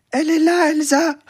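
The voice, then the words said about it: Small, thin little voice. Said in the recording (French): “avec une petite voix comme ça”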